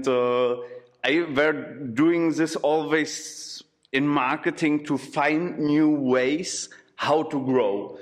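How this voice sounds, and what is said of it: Non-native English, German accent. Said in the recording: “from the accent. You're not a native Brno, but I guess you come a little bit from the West”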